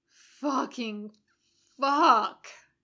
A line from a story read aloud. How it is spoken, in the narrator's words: Jim moans